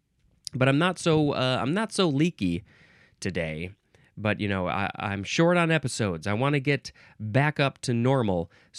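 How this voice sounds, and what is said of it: Congested, stuffy-nosed voice. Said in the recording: “I think I'm a little congested. You could probably hear it in my voice”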